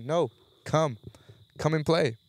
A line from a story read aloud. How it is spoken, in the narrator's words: yelling